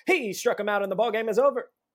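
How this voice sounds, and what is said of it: Imitates a baseball broadcaster's call. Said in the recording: “his impression ... Gary Cohen ... Real concise.”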